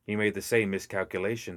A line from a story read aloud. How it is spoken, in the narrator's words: Hamlin said